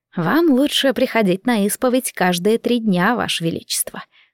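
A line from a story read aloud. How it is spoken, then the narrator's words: Insinuating coo in the ear. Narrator (Russian): вкрадчиво ворковал мне на ухо епископ Гамос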